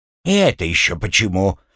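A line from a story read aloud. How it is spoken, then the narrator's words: Indignant question. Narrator (Russian): возмущенно спросил он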